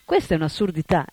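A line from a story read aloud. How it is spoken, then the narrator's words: Exclaimed. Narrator (Italian): esclamò Prabhupada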